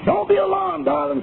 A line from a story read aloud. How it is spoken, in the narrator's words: cried the young American engineer